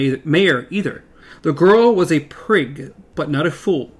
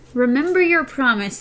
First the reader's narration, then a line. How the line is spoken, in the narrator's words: Elaine said nervously